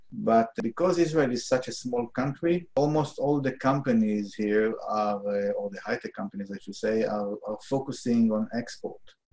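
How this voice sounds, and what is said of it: Strongly accented English. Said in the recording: “my horrible accent”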